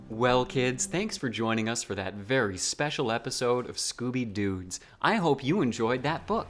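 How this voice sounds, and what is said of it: Sugary-sweet teacher voice. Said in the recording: “your teacher voice ... you're on the edge of, like, laughter ... It's so saffrony sweet”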